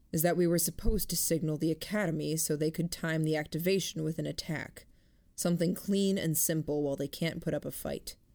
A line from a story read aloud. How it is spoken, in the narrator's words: Gordon said, his voice level